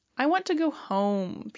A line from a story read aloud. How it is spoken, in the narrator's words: Peter whines